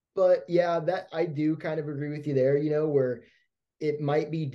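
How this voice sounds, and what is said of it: Usual voice. Nothing is said of it.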